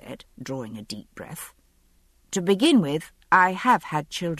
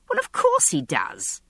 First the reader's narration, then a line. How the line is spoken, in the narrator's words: I replied testily